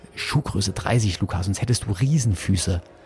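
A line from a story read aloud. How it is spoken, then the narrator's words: Quick whisper in ear. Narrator (German): Ich flüsterte ihm schnell ins Ohr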